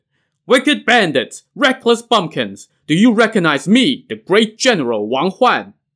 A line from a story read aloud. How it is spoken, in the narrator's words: a commandant named Wang Huan shouted